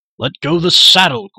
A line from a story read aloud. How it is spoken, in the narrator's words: Gwydion shouted above the torrent